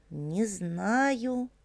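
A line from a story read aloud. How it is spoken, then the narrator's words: Muttering. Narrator (Russian): пробормотал Виталик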